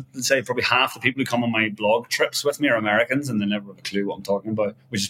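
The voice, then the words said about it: Softened Irish accent. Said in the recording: “I'm Irish, obviously, but I've been living in Asia for 15 years ... I've got a watered down accent now so people understand me”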